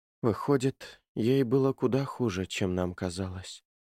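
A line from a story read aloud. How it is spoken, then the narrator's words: Sighing. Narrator (Russian): вздохнула Джулия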